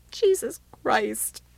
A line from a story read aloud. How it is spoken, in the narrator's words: she said between sobs